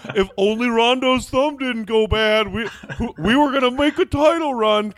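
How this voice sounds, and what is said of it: Dim-witted sports fan voice. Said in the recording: “just sound like ... C Red Fred ... it's just my unintelligent Bulls fan impression”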